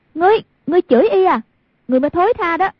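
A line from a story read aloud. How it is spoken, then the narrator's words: Furious shout. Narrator (Vietnamese): Hoàng Dung cả giận, quát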